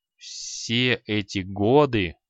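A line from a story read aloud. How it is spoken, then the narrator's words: Through teeth, panting. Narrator (Russian): процедил креол, тяжело дыша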